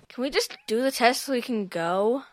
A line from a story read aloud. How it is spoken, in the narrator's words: Charlotte grumbled